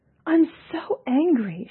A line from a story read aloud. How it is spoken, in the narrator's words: she cried